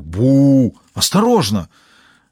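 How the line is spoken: Exclaimed. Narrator (Russian): воскликнул Робинсон

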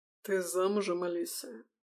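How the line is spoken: Husky, piercing voice. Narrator (Russian): Голос Лисы совсем не изменился, с хрипотцой, пронизывающий, прошивающий Алиску насквозь до дрожи

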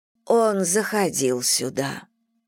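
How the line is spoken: Slow. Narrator (Russian): медленно произнесла миссис Бантинг

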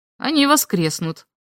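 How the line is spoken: Stern old man. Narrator (Russian): строго сказал дед

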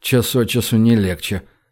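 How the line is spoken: Muttered. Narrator (Russian): пробормотал Гош

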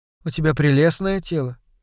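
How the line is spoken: Calm remark. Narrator (Russian): спокойно заметила Ронни

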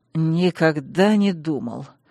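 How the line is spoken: Through gritted teeth. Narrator (Russian): процедил Вайрос

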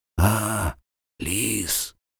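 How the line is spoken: Hoarse wheeze. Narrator (Russian): прохрипел он

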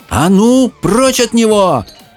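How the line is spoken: Shouting. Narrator (Russian): крикнула Мэлори

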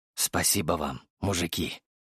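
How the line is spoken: Whisper. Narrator (Russian): произнес я шепотом

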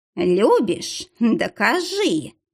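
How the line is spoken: Purring cat. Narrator (Russian): мурлыкнул кот

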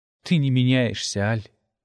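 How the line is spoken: Tired speech. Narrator (Russian): устало сказала она

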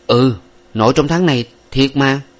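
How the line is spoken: Firm, emphatic repetition. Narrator (Vietnamese): Nguyệt cả quyết gằn giọng nhắc lại

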